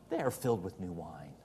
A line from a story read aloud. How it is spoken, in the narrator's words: others mocking said